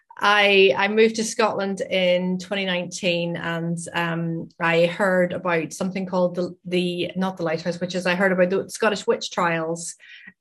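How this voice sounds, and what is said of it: Northern Irish accent. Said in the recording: “I'm originally from Northern Ireland, hence my accent.”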